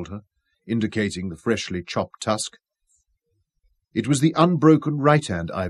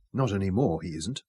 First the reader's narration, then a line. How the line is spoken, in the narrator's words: Robin told him quietly